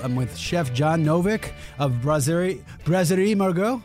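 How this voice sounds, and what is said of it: Put-on French accent. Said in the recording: “That was pretty good. My French accents usually aren't good.”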